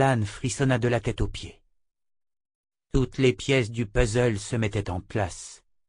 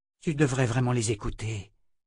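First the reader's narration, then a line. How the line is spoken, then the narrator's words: Murmured. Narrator (French): murmura Callan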